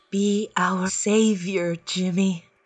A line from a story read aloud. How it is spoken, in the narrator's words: she whispers